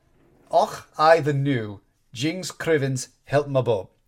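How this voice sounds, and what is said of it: Put-on Scottish accent. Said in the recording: “mocking her in thick Scottish words ... Okay, there was an accent there.”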